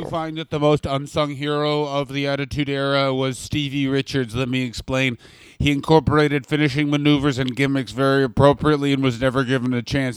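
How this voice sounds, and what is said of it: Imitates another person's voice. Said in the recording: “I just did an impression of both of us and Dave Meltzer. That was Dave Meltzer, everybody.”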